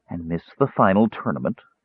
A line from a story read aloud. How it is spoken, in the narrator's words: Kyrie said coolly